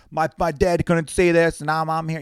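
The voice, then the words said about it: Bad put-on New York accent. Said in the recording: “bad New York accent”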